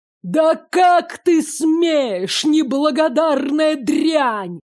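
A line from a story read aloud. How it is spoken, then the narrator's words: Furious roar. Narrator (Russian): взревел в ярости отец года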